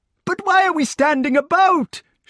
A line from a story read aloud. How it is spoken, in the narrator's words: shouted the king